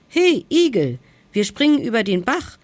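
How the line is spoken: Calling out. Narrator (German): rief der Mummelhase

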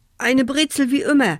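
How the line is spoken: Stuttering. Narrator (German): stotterte Achim

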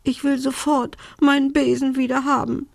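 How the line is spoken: Sobbing. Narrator (German): schluchzte Belinda

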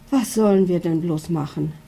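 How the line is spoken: Worried mother sighing. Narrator (German): seufzt die Mama mit sorgenvollem Blick

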